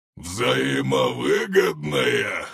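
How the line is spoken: Monster's laughing reply. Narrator (Russian): расхохотался монстр

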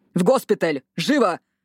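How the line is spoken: Barked orders. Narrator (Russian): рявкнули санитары

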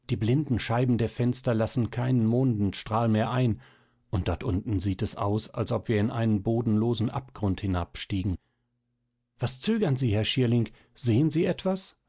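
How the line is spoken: Hasty, almost fearful. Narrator (German): setzte hastiger und fast ängstlich hinzu

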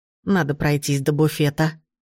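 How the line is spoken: Old woman muttering. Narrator (Russian): пробормотала бабушка

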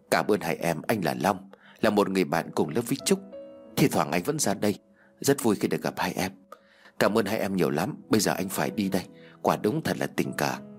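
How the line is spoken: Soft laugh. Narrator (Vietnamese): khẽ cười

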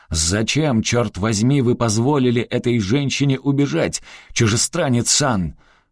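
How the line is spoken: Indignant yelling. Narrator (Russian): мужчина с лицом генерала Тодзио негодующе заорал Гастону

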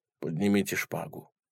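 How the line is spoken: Sighing, gloomy. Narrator (Russian): вздохнул и мрачно произнес

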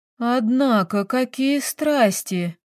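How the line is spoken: Slow, drawn-out speech. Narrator (Russian): медленно проговаривает Оля

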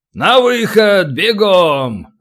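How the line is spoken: Booming command. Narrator (Russian): зычным голосом командует Тисов

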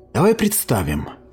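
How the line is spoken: Quiet, warm voice. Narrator (Russian): произнесла Лигия тихим, теплым голосом

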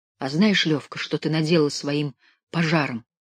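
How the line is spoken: Quiet. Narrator (Russian): тихо произнес Димка

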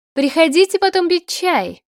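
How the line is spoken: Hurried shout, mother. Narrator (Russian): только и успела крикнуть мама

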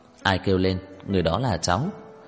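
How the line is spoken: Smiling. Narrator (Vietnamese): Trang Hạo Nhiên mỉm cười nói

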